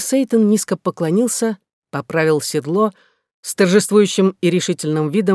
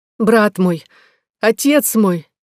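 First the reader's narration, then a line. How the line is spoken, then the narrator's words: Exclaiming. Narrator (Russian): воскликнула Екатерина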